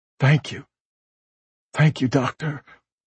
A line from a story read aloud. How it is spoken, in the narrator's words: With a profound gratefulness evident in his tremulous voice, said